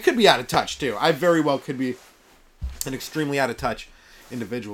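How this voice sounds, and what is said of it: Slightly hoarse voice. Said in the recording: “my voice is a little, little hoarse today ... I just have a sore throat”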